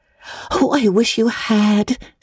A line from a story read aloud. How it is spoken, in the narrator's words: sighed Anne